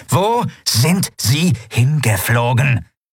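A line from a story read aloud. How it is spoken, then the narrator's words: Sharply stressed repetition. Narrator (German): wiederholte Ruka, jede Silbe scharf betonend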